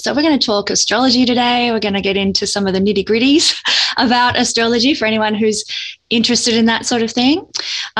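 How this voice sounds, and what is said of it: Australian accent. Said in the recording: “I am quite obviously from my accent, I'm from Australia”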